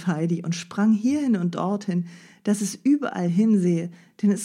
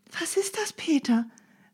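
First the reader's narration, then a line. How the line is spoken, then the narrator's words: Calling out again. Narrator (German): rief Heidi wieder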